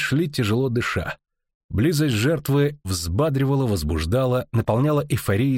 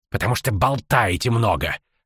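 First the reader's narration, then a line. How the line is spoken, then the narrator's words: Sharp retort. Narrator (Russian): резко отрезал Ринс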